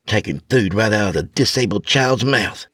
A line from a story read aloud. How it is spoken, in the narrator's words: Tammy mumbled under her breath